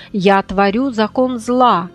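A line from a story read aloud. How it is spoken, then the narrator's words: Proud, vengeful hiss. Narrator (Russian): гордо заявила и мстительно зашипела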